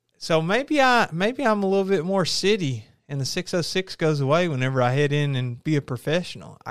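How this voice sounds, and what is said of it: Southern twang accent. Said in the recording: “you really turn on your accent whenever you do your YouTube videos ... I guess on here, we really got the Southern twang going.”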